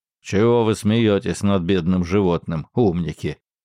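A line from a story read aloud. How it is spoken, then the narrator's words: Old man grumbling. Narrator (Russian): заворчал старик Циммерман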